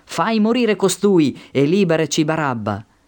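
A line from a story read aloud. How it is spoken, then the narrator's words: Crowd shouting in unison. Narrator (Italian): essi gridarono tutti insieme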